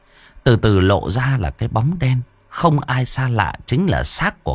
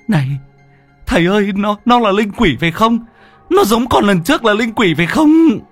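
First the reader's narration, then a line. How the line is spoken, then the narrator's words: Shrieking. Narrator (Vietnamese): nó rú lên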